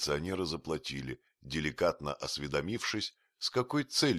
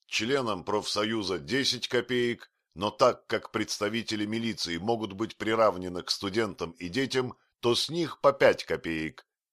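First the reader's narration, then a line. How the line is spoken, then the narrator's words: Firm shout. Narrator (Russian): Остап закричал довольно твердым голосом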